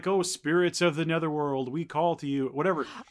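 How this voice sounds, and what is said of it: Creepy spooky voice. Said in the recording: “creepy voice ... weird voice”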